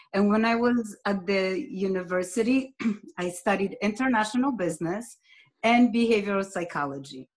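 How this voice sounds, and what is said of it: Polish accent. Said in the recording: “as you can hear by my accent, I'm originally from Poland”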